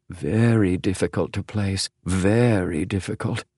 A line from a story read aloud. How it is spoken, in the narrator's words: murmured James